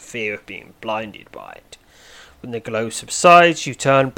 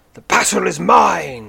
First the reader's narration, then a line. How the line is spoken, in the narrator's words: snarls the knight as he attacks